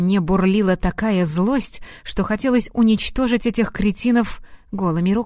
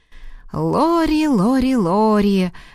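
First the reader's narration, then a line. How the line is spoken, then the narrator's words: Mocking drawl. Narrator (Russian): протянул насмешливо Лиам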